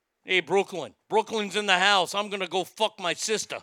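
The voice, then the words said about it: Put-on New York accent. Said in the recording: “You got to say that now with a New York accent.”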